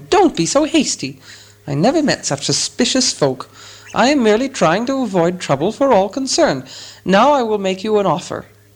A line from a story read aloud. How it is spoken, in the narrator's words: squeaked Bilbo